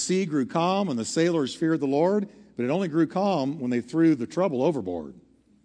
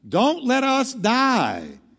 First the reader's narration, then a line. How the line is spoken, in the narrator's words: the sailors on Jonah's ship cried